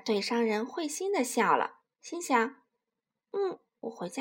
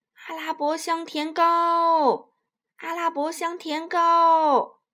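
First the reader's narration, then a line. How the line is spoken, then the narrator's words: Hawker's sing-song call. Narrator (Chinese): 商人叫卖道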